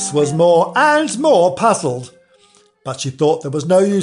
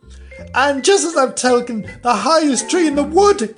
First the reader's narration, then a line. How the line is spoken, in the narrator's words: raising its voice to a shriek